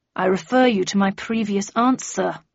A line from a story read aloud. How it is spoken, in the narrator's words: growled Flanker